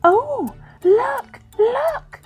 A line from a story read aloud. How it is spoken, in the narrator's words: exclaimed Ragged Blossom